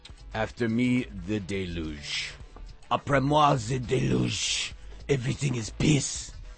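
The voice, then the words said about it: Put-on French accent. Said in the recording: “I'm using a vaguely anti-nationalist French accent there”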